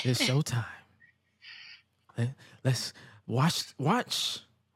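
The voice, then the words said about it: Very mellow, smooth voiceover-style voice. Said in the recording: “making the most mellow tone possible. Like he's trying to sell me a bottle of cologne ... why you sound like a sensational voiceover”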